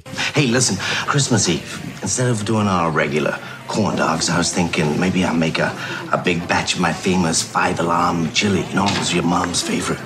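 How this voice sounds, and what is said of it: Poorly done put-on accent. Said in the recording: “your accent is shit”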